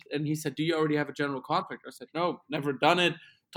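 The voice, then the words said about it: German accent. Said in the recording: “Where is that accent from? I said, yeah, we're from Germany.”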